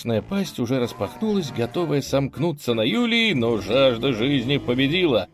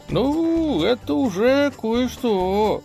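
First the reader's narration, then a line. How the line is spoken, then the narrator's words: Drawling, breaking off mid-word. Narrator (Russian): протянул Юлий и сам себя оборвал на полуслове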